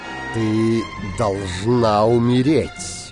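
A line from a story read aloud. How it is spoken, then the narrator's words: Plain. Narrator (Russian): сказал он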